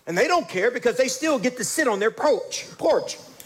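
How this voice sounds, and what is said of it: Louisiana accent slips into a word. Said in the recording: “You can tell that old Louisiana accent just came out. I was meant to say porch, but it's perch.”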